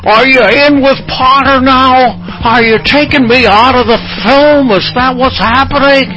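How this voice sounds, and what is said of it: Poor impression of another person's voice. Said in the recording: “The worst impression ever.”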